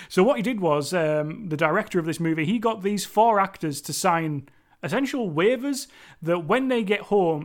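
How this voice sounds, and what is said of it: Cumbrian English accent. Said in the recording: “me and my Cumbrian accent are just botching those names completely”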